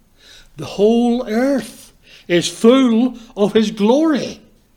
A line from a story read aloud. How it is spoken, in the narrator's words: They cried